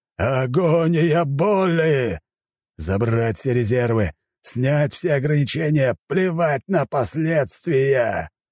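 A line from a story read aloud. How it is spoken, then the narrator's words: Agonized growling. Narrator (Russian): Рычал он, а его тело, находясь в эпицентре энергетической бури, постепенно рассыпалось в прах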